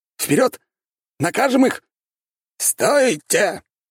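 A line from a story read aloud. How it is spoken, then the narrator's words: Barked, old voice. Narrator (Russian): рявкнул древний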